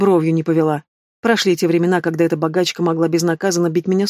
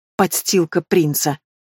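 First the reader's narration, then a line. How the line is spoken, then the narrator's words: Hiss. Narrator (Russian): прошипела Лиара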